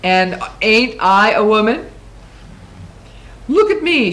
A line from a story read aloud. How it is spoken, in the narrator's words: She raised herself to her full height and in a voice as rumbling and thunder roared